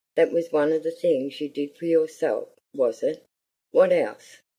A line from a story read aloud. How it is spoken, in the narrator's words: said the Earl in his deep voice